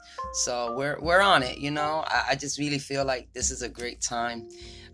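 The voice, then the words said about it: Excited, upbeat voice. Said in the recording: “I'm just so excited. I guess you could hear it in my voice ... is all exciting now. Yeah, I am excited.”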